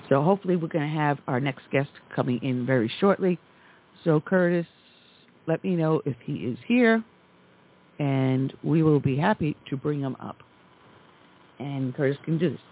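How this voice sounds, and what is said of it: Sore, strained, fading voice. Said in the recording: “my throat is going a little sore ... I'm losing my voice.”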